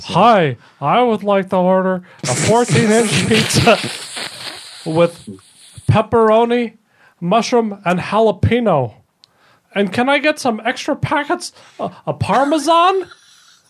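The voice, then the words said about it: Imitates another person's voice. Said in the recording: “my impression of Doug ... that's pretty good”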